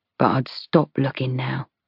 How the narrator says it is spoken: he murmurs

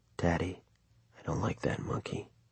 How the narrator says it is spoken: he said, his voice almost too low to hear

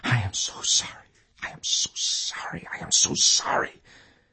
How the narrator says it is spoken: Emil's voice, like the repetitious chant of a rosary, whispering again and again

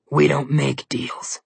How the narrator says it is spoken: Malumclaw growled

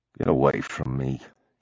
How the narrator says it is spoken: he mumbled

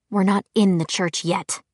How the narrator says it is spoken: Clary muttered

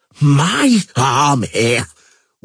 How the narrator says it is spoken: wheezed Henselt

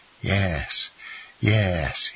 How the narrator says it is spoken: he murmured

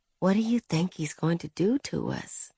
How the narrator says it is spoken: she whispered

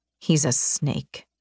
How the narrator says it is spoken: Rain muttered

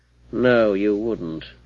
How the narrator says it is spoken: replied the man coolly

